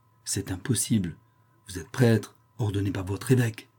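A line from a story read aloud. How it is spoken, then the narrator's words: Faint stammering voice. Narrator (French): balbutia-t-elle d'une voix éteinte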